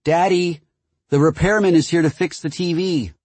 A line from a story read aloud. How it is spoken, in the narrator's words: she would shout